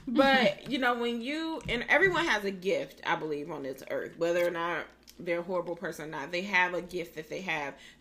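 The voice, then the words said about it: Raspy, sore-throated voice. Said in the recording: “I just took a sore throat lozenger because my throat getting a little raspy. I told you I'm a little sick. ... My throat is raw”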